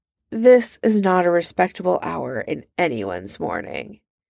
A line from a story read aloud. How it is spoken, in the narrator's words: he sighs